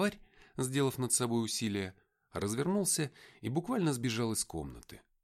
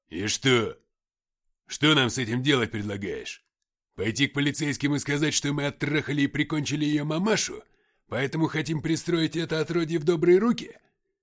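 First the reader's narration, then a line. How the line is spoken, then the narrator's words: Failed attempt at anger. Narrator (Russian): Если мужчина и хотел звучать зло, то у него не слишком получалось под этим лучистым детским взглядом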